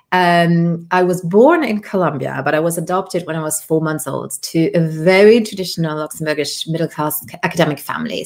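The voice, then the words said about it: British accent. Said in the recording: “hence my British accent”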